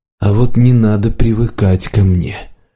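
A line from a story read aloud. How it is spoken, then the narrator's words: Cold, detached voice. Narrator (Russian): сказал подорожник другим холодным и отстраненным голосом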